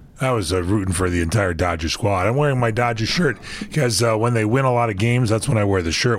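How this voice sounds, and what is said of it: Hoarse, raspy voice. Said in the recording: “you got a frog in your voice there ... I got a little laryngitis that I'm recovering from”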